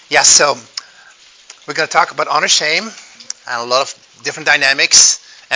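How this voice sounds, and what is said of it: Belgian or Dutch accent in English. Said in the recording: “If you hear an accent, that's because I grew up in Europe, in Belgium and Holland.”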